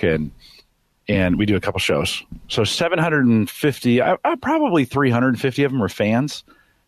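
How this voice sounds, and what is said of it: Worn, tired-sounding voice. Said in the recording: “my voice is a little done today”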